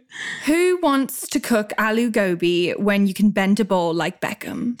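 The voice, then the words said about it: Good put-on British accent. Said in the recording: “I should be saying these in a British accent ... Well, that's a good accent”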